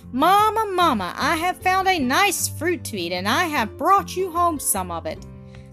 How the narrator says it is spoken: little Francis came running with his mouth crammed full of something and called out

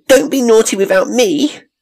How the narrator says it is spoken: she cried

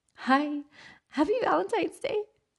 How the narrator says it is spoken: I squeaked

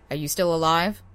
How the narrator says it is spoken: I asked

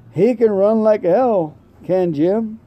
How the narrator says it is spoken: He chuckled reminiscently

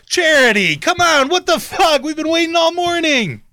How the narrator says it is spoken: the other party over here shouts out to her

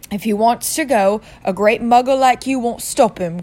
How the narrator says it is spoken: growled Hagrid

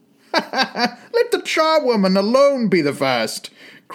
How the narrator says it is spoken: cried she who had entered first

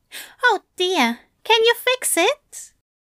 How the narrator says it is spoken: Crowley snorted

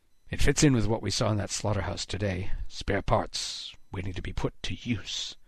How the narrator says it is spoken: Haddix muttered

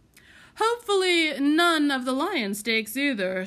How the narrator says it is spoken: said with a chortle, hoping for another laugh

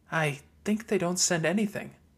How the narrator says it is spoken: Lucy whispered back

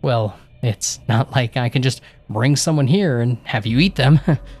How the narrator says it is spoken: I muttered

